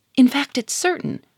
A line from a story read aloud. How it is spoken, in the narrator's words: cried Germaine